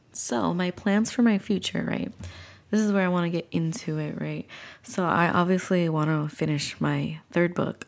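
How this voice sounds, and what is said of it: Congested, sick-sounding voice. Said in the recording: “as you can hear from my voice, I'm still like a little bit kind of dealing with this cold here”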